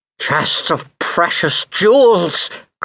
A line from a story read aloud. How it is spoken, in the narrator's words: cried Pelf